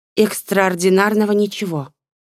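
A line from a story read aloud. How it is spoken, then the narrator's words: Forced, strained. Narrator (Russian): выдавила девушка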